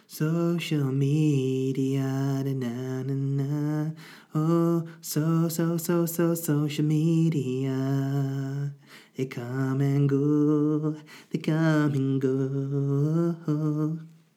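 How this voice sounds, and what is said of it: Sung imitation of another person's voice. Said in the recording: “doing a Boy George impression ... That's what I imagine he would sing.”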